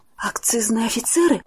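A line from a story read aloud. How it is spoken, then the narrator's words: Whispered. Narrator (Russian): прошептала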